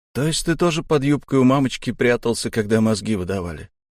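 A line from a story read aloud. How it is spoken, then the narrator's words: Grumbling. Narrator (Russian): проворчал я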